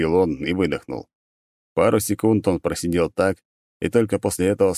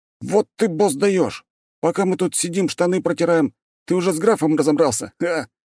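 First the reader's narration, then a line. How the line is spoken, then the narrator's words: Exclaiming. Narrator (Russian): воскликнул один из них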